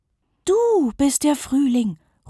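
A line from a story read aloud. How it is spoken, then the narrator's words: Exclaiming. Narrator (German): ruft Lisa aus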